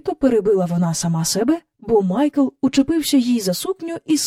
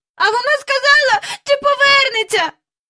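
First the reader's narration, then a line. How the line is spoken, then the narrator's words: Shouting. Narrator (Ukrainian): закричав він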